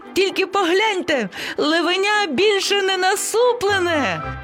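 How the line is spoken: Sudden parrot exclamation. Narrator (Ukrainian): раптом вигукнув папуга

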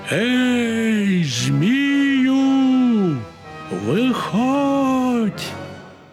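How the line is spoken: Sudden shout. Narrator (Ukrainian): як крикне

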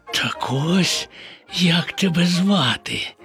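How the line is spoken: Whispering. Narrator (Ukrainian): прошепотів Боня

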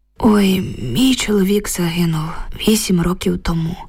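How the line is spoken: Heavy sigh. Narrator (Ukrainian): важко зітхнула Люба

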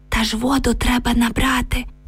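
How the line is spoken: Whispered reply. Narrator (Ukrainian): прошепотіла Оксана у відповідь

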